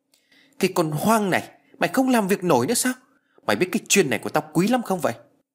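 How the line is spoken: Loud angry shout. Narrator (Vietnamese): Ông ta quát lớn

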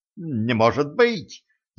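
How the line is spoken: Babbling. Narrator (Russian): залепетал

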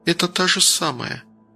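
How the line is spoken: Silent mouthed words. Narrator (Russian): тихо одними губами произнесла Ника

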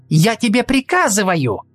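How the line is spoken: Shouting. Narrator (Russian): крикнула Сельда

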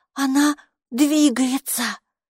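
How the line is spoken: Frightened gasp behind door. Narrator (Russian): испуганно выдохнули за дверью

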